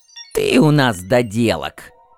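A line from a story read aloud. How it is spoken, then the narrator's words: Creaky, exasperated reply. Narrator (Russian): проскрипел в ответ не выдержавший Сай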